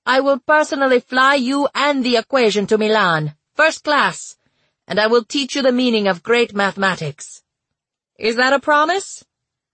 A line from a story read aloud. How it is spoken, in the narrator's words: Raspanti laughed bitterly